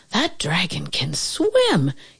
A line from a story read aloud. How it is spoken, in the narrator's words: exclaimed